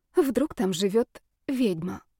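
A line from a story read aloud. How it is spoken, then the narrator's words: Quiet emotional question to herself. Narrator (Russian): Тихо спросила она скорее сама у себя, находясь под влиянием эмоций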